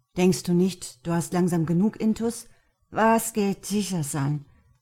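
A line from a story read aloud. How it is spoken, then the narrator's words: Drunken slurring. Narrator (German): lallte er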